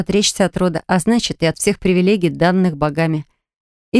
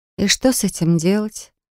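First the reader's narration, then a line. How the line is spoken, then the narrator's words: Overly calm, cynical question. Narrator (Russian): Слишком спокойно, даже как-то цинично спросила я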